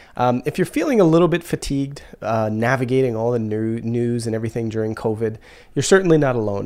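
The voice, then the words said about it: Stuffy, congested voice. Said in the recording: “I sound a little stuffy ... I'm just getting over a cold”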